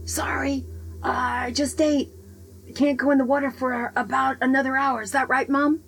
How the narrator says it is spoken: Aquaman yelling back

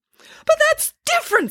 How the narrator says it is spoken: spluttered the doctor

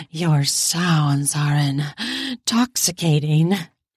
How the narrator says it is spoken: I muttered between pants

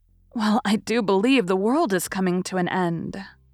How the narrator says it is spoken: Meg exclaimed with uplifted hands

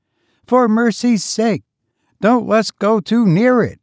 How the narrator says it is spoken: exclaimed some of the young ladies

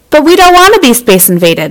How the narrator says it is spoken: shouted a Beorpian named Borg

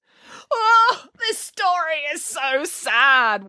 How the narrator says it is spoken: wailed Boris

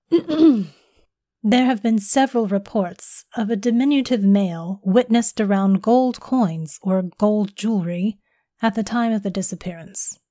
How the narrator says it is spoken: she said

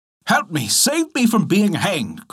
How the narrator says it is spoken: cried the soldier

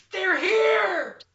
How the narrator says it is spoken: a shout

